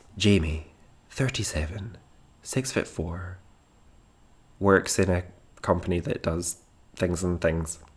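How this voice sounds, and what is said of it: Put-on podcast host voice. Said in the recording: “I'm adopting a podcast voice.”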